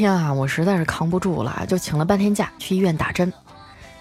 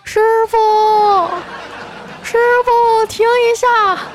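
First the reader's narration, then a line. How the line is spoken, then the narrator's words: Crowd shouting. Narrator (Chinese): 满大街的人啊，对着来往的出租车大喊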